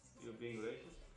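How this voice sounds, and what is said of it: Put-on Russian accent. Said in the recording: “What accent is that? ... It's Russian ... He goes into full Russian mode”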